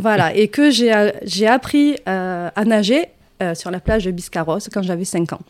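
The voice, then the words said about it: Rolling southern French regional accent. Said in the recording (French): “On entend le petit accent qui, roule. Il est jamais parti ... je n'arrive pas à faire partir cet accent.”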